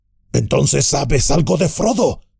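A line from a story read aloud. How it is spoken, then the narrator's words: Exclaimed. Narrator (Spanish): exclamó Gimli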